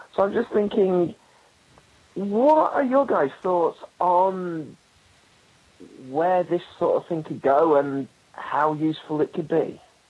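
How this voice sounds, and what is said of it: British accent. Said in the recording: “I was majorly distracted by his accent ... that was British ... that really was an accent”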